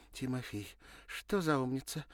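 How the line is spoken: Exclamation. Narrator (Russian): воскликнула Леночка

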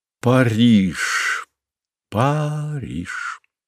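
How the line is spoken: Soft, savoring the word. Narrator (Russian): проговорил Александр вполголоса, вслушиваясь в мелодику слова

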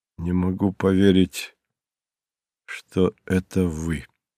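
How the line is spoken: Said quietly. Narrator (Russian): Питер тихо произнес

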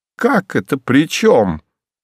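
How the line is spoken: Indignant exclamation. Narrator (Russian): возмущенно воскликнула та

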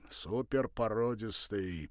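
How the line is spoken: Deep bass voice. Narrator (Russian): пробасил он

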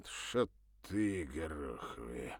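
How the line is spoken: Through gritted teeth. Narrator (Russian): сквозь зубы процедил Серегин

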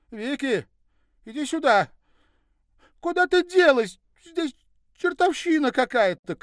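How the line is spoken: Shouted. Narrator (Russian): крикнула подруга

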